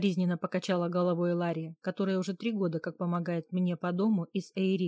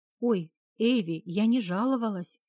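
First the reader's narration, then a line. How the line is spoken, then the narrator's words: Confused, frightened exclamation. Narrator (Russian): растерянно воскликнула девушка, испуганно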